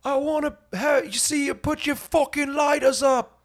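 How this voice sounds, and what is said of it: Bad put-on British accent. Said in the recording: “British accent... I'm gonna do a really bad impression”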